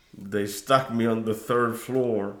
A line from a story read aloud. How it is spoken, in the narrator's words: grumbled Arturo